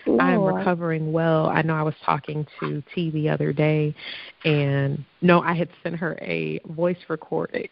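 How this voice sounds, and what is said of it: Allergy-affected, congested voice. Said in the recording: “if you can't tell by my voice, my allergies have tried to kick my butt”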